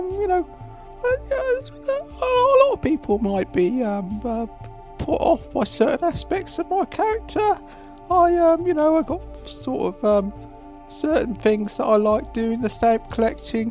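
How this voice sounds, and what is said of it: Squeaky falsetto voice. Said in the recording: “I've got a rather silly voice ... I've got a rather falsetto sort of voice, really. ... older gentleman with a squeaky voice.”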